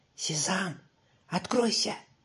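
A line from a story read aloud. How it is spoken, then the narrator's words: Soft whisper. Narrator (Russian): тихонько прошептал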